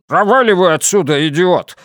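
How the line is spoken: Barked. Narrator (Russian): рявкнул Оверхолсер

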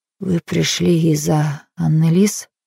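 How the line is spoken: Trembling voice. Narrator (Russian): проговорила Хелен дрожащим голосом

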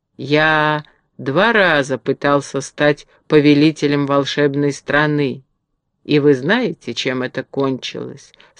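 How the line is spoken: Calm. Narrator (Russian): спокойно сказал Урфин

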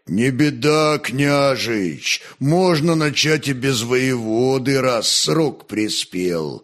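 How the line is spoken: Soothing deep bass rumble. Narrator (Russian): успокаивающе пророкотал мощным басом другой темник, Притыка

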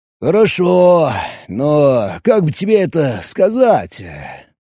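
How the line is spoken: Drawled. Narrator (Russian): протянул Роберт

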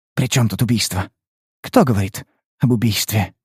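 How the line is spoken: Sudden buzzing whisper. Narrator (Russian): Она вдруг понизила голос до шепота, похожего на гудение назойливого комара

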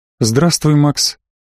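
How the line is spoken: Even, level voice. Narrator (Russian): ровным голосом произнесла Сея

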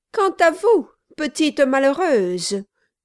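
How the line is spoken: Shout. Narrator (French): cria Miss Monflathers

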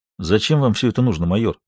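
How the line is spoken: Careful quiet captain. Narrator (Russian): Капитан спросил осторожно и негромко

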